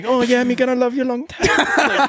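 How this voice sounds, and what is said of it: Put-on Filipino accent. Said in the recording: “My girl's from the Philippines, so, I mean, she doesn't have the accent, but I like to pretend that she has the accent. So I'll do the accent”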